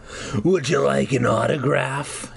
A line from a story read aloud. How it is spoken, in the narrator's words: growled